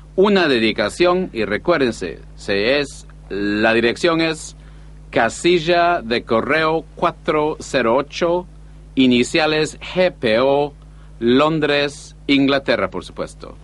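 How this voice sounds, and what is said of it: Mixed Caribbean-Argentinian Spanish accent. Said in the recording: “It sounds for me very funny. It's like a salad niçoise, everything mixed up. They still sound to me, these two guys, very Caribbean accent. They have a Caribbean accent. It could be Cubans, but they speak... like Argentinians, it sounds very funny.”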